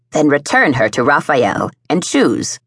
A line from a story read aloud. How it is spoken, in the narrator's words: Sharia said sharply